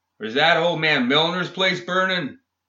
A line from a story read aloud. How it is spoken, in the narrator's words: She shouted back